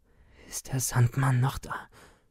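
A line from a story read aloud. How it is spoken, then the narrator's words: Stammering. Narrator (German): stammelte ich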